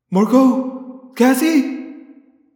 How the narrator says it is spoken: I shouted frantically

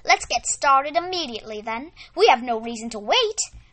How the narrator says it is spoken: Miss Rosie exclaimed

